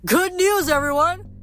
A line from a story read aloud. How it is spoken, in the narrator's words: Coach Hedge … yell